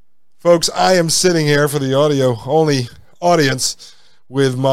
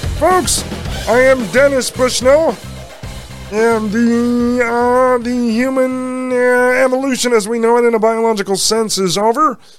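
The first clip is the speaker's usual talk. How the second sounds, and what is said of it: Kermit-style voice impersonating Dennis Bushnell. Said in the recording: “my Kermit the Frog puppet doing a Dennis Bushnell impersonation ... I'm going to have to really get that voice down”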